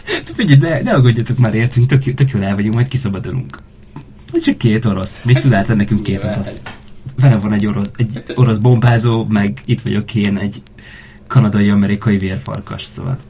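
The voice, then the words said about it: Put-on Russian accent. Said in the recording (Hungarian): “De egyre rosszabb az orosz akcentusom szerintem. ... Nem, szerintem tök jó.”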